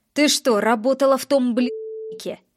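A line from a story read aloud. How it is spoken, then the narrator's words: Angry, fairly loud. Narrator (Russian): Спрашивает зло и довольно громко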